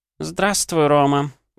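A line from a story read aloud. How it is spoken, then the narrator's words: Grandmother's sorrowful sigh. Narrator (Russian): горестно вздохнула бабушка Ванды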